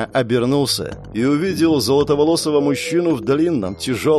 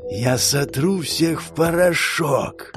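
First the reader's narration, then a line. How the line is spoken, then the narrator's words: Whisper from the strongest. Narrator (Russian): прошептал сильнейший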